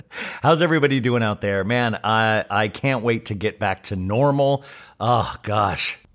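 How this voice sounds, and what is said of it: Deeper, froggy, worn-out voice. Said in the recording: “My voice is a little extra deeper and a little froggier because my body is breaking down.”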